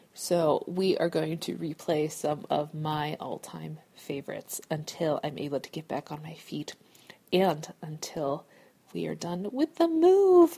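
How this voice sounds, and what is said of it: Voice affected by a cold. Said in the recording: “my voice isn't too crazy right now. I'm just coming into a cold.”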